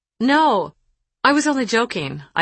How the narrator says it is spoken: I exclaimed in a falsely cheerful tone

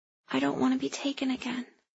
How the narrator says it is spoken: Gilly whispered

